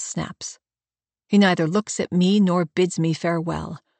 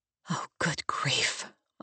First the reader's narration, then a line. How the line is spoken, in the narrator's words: I whisper